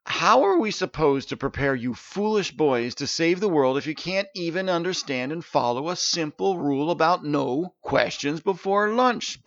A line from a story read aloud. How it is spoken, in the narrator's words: bellowed Artish